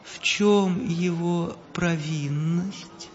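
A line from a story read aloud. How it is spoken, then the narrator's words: Gentle question. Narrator (Russian): ласково спросил император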